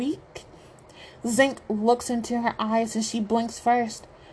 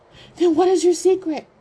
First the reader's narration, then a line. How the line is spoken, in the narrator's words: Zink shouts back